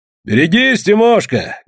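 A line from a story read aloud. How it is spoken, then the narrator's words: Loud mocking reply. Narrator (Russian): громко и насмешливо отозвался Иван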